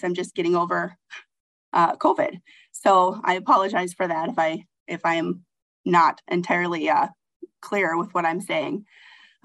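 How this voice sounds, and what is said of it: Hoarse, strained voice. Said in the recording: “I'm kind of losing my voice.”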